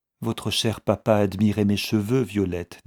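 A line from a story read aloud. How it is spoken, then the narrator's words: Plain. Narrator (French): dit-elle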